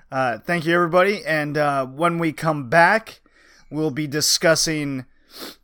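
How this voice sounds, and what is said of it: Hoarse, strained voice. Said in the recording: “I have lost my voice during the cast”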